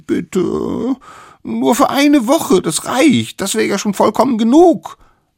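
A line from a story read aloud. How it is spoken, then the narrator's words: Small ones pleading. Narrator (German): Die kleinen Wilden flehten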